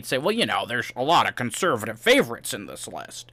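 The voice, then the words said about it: Imitates another person's voice. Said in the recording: “That's a very good impression.”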